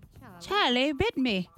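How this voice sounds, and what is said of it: British child voice, stuffy nose. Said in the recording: “got another accent... British accent... Like, your nose is stuffed up... Little stuffy nose kid.”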